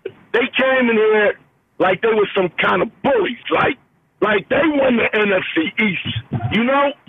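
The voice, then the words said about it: Hoarse, nearly lost voice. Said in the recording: “I lost my voice, man, early, even before the game, in the parking lot.”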